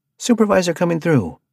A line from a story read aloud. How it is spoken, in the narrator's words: Arthur yelled